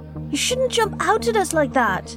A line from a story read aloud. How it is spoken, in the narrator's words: Harold blurted